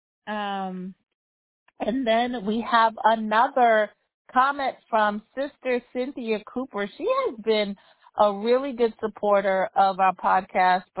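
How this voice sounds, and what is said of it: Radio-style voice. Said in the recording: “you don't sound weird... I guess I have a radio voice.”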